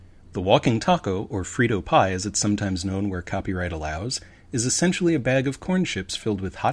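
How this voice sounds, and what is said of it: Usual voice. Nothing is said of it.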